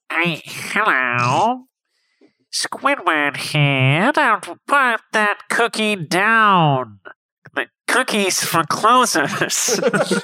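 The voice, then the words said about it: Good Squidward cartoon character voice. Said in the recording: “That's a good Squidward impression.”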